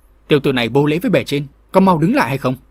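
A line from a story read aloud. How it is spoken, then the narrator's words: Shout. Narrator (Vietnamese): Ông ta quát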